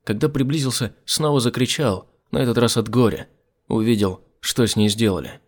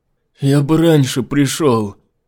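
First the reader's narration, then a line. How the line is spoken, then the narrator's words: Pitiful moan. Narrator (Russian): простонал жалко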